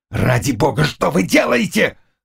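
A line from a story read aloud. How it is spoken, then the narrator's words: Growling. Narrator (Russian): рычал Шляхтич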